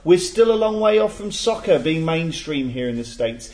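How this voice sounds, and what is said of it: Put-on accent reading aloud. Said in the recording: “Do you want me to do the accent? ... He's not Wi- Irish.”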